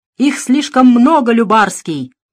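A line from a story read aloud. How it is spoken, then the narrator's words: Loud shout. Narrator (Russian): закричал на всю улицу Дронго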